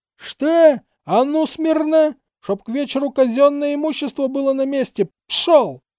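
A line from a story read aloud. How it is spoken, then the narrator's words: Zealous yelling. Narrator (Russian): До того усердно он на кого-то орал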